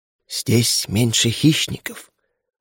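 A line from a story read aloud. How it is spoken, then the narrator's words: Whispered reply. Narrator (Russian): шепот в ответ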